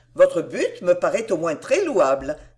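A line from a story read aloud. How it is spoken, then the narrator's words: Laughing reply. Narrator (French): répondit Madame Delville en riant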